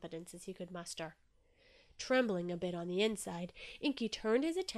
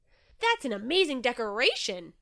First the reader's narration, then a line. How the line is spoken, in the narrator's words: Inky exclaimed, unable to control his excitement